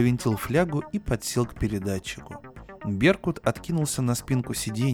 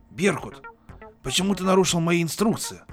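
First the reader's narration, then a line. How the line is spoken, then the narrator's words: Barked reply. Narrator (Russian): рявкнула в ответ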